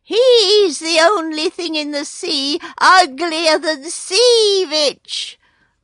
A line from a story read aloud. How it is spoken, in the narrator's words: screamed a Burgomaster Gull